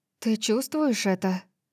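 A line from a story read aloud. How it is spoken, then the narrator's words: Quiet question. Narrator (Russian): спросила я тихим голосом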